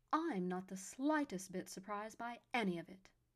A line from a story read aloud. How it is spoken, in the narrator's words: Alva snipped haughtily